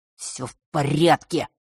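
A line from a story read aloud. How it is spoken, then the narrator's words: Through teeth. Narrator (Russian): процедил тот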